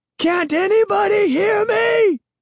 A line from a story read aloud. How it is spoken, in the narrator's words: I shrieked